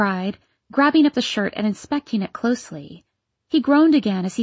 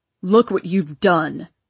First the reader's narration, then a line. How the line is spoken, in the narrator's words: he roared at me